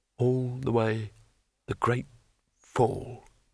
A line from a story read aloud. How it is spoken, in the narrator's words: muttered Rincewind